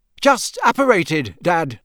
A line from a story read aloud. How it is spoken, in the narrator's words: said Percy loudly